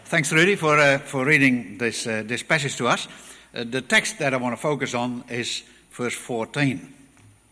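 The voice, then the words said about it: Slight Dutch accent. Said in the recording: “a bit of a Dutch accent”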